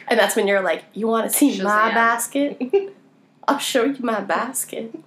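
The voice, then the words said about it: Put-on Southern accent. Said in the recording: “Are you saying a southern accent all of a sudden?”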